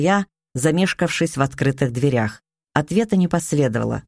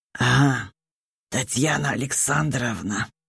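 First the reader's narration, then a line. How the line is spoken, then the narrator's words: Muffled, hollow voice. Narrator (Russian): сказал он глухо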